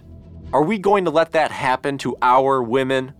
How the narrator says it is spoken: Addressing the crowd, he screamed

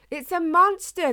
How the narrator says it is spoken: they cried

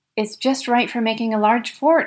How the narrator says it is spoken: exclaimed Danny Rugg

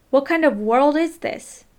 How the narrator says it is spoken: Thomas McCormick, Mabel's husband and grandfather to Leslie, began weeping and yelled

